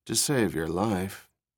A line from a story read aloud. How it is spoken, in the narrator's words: Rachel murmured